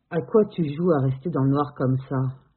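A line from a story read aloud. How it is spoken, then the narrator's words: Slurred, thick voice. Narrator (French): demande Thomas d'une voix pâteuse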